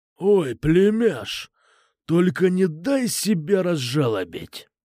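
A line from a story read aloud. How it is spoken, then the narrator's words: Menacing growl. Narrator (Russian): Грозно прорычал Кукуша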